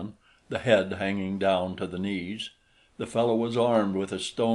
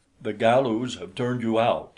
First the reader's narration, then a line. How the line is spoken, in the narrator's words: they cried